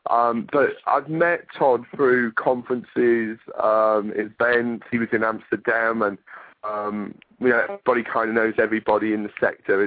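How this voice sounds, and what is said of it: English accent like David Beckham. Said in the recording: “I love the accent. ... I feel like I'm talking to, like, David Beckham with that accent”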